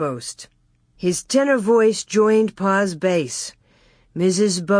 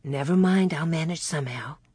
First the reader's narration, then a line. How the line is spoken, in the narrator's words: Ma whispered back